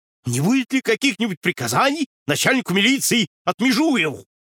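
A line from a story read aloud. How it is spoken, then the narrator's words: Devoted shout, man. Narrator (Russian): с беззаветной преданностью в голосе прокричал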